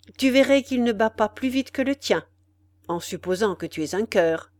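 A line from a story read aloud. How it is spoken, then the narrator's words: Young man, cold. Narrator (French): dit froidement le jeune homme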